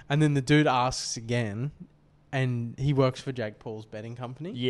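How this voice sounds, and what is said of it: Usual voice. Nothing is said of it.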